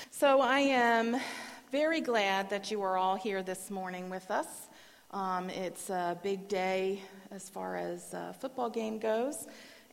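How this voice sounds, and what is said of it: Voice fading and strained. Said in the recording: “my voice is going out a little bit now and again”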